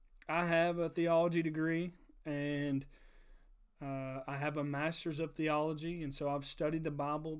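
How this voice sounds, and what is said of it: Rural Kentucky accent. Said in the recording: “talk like a hick kid from Auburn, Kentucky”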